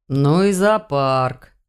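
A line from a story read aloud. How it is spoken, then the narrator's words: Werewolf grumbling. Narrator (Russian): проворчал оборотень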